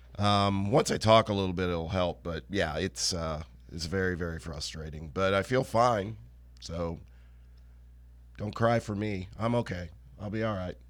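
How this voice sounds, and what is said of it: Hoarse voice. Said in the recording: “I don't sound great. ... Now I'm getting hoarse.”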